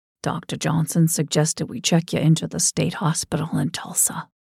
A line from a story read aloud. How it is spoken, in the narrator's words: Edgar whispered, his eyes watery